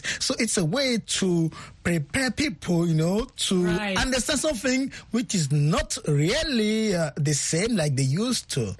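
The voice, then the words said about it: French accent. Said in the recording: “he will be going to address you in a very nice accent, French accent”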